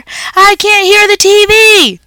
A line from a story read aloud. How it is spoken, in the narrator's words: Ty hollered